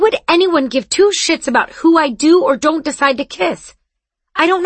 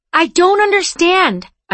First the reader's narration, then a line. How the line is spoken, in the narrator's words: I said, and I really was shouting now